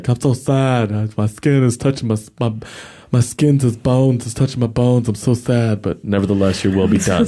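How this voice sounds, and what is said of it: Sad, mournful character voice. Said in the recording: “That was just my impression of David.”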